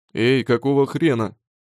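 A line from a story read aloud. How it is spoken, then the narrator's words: Emotional bass shout. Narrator (Russian): кричит чересчур эмоциональный клиент хорошим таким басом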